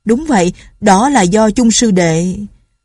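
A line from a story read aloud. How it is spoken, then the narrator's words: Loud, face-saving. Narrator (Vietnamese): Lão họ Từ Mã trong lời nói hồi nãy tỏ ý khiếp nhược, vội muốn gỡ lại thể diện, liền lớn tiếng nói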